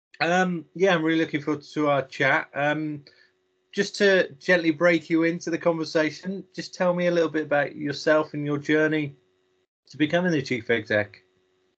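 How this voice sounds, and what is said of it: Slightly hoarse, croaky voice. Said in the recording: “I've got a bit of a frog in my throat”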